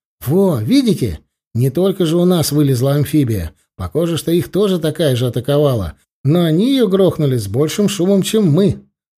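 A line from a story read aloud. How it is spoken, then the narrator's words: Happy. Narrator (Russian): радостно сказал Серега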